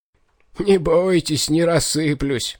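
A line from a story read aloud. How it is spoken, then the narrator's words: Rattling, quavering laugh. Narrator (Russian): дребезжащим смешком рассмеялся он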